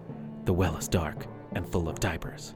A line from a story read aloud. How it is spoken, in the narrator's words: With a quiet, brooding confidence, he probably whispered something like